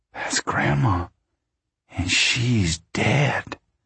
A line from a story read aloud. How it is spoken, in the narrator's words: Ruthie whispered